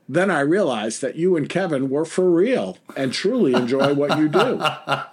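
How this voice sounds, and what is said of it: Heavy New York accent. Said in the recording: “your heavy New York accent ... Sorry for the accent, buddy boy.”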